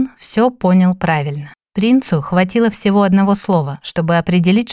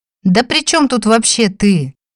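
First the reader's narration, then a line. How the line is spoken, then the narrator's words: Howling. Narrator (Russian): взвыл Дим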